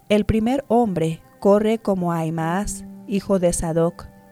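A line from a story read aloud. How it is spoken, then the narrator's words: Plain. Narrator (Spanish): dijo el centinela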